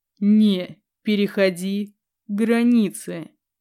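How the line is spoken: Slow, bestial rumbling growl. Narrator (Russian): Очень медленно произнес он, оскалившись по-звериному, и каждому слову вторил грохот из глубины его мощной груди

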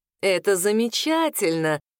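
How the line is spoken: Catlike purr. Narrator (Russian): промурлыкал он не хуже кота

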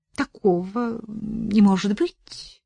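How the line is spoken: Uncertain. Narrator (Russian): неуверенно произнесла Ирина Егоровна

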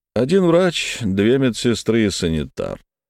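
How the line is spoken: Thoughtful. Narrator (Russian): задумчиво произнес Хольц

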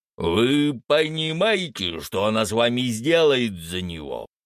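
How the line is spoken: Growled. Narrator (Russian): прорычал владыка Фенрис

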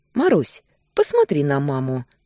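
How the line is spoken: Gentle but constrained request. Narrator (Russian): Ласково, но как-то скованно попросил он

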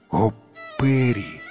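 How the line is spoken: Exclaiming. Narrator (Russian): воскликнул Малек Джамшид

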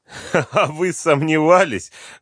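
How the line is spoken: Laughter over phone. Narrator (Russian): рассмеялись на том конце провода

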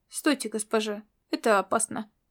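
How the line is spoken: Perfectly calm tone. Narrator (Russian): проговорил он совершенно спокойным тоном

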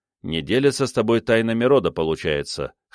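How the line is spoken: Smirking. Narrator (Russian): хмыкнул я

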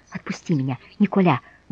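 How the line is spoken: Feverish whisper. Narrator (Russian): горячечно шептала она

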